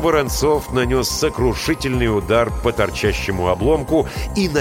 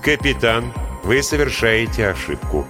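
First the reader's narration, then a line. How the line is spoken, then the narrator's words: Calm, unchanged voice. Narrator (Russian): сказал Линь тем же спокойным голосом, как будто между ними ничего не произошло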